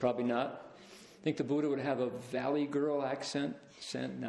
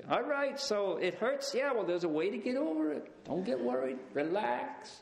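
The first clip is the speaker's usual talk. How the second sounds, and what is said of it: Put-on New York accent. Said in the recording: “Would he speak like somebody from New York?”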